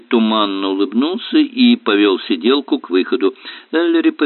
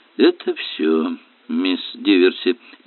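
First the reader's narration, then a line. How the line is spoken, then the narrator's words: Mumble. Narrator (Russian): пробормотал Эллери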